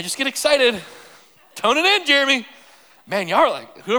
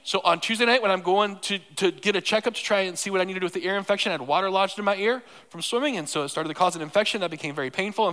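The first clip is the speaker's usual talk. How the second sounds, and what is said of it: Very fast speech. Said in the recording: “I'm talking really fast. All right, let me slow down. ... holy auctioneer.”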